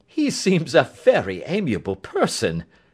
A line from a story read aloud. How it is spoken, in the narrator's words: said Holmes, laughing